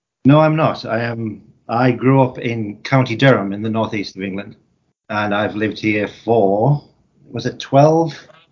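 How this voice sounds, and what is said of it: Non-American English accent. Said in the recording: “detecting from your accent that you're not a native guy from the US”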